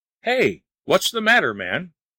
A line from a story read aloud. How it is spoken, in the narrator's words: cried Lin, thinking Wang was in a fit